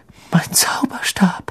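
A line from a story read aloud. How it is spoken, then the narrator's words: Trembling voice. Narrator (German): sagte Ron mit zittriger Stimme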